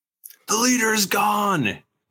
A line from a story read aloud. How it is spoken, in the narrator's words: somebody yells